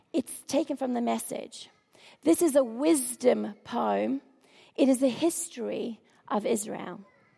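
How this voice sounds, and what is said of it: Croaky voice. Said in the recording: “my voice is a bit croaky”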